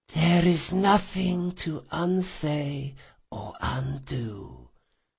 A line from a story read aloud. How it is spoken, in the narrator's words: she replied faintly